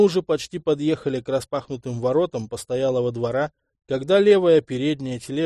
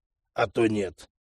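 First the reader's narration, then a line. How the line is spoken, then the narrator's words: Snort. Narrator (Russian): хмыкнул Арчи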